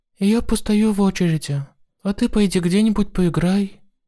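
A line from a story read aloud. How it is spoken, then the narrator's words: Calm. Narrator (Russian): спокойно сказала она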